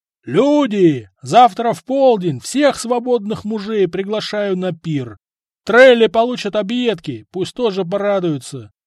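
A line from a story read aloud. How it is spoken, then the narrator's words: Shouted by a chieftain. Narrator (Russian): крикнул ярл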